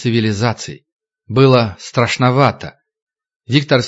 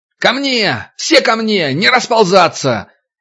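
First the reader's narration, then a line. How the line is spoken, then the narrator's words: Deafening yell. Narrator (Russian): Ержан орал так, что у Вити закладывало уши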